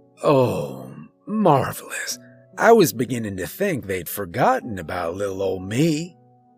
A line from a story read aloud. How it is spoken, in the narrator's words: chuckled